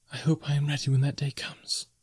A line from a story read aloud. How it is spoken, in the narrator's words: she whispered